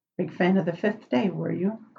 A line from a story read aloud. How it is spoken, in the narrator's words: Crowley murmured